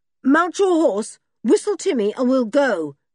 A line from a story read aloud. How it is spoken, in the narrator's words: shouted Julian, not at all liking the silent, sour-looking travellers